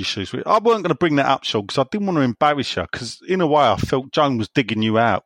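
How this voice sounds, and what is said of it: East London West Ham accent. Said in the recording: “I like your own accent. Proper West Ham. ... that is my accent. ... East End.”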